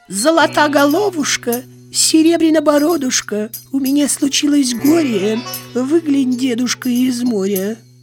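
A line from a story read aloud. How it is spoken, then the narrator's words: Thin singing voice. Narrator (Russian): тонким голосом поет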